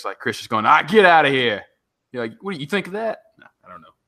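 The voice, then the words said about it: Poor Boston accent impression. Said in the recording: “It's a really terrible Boston impression ... that was not your best impression.”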